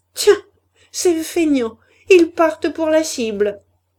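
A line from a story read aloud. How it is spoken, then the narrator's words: Women sneering together. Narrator (French): ricanaient les femmes, la Brûlé, la Levaque et les autres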